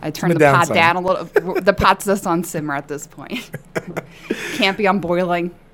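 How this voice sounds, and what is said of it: Brooklyn accent, fast speech. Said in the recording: “born and raised in Williamsburg, Brooklyn. That's why, you know, I talk a little different than everybody else ... I mispronounce a lot of words, and a lot of times I tend to, like, mumble ... I talk really fast”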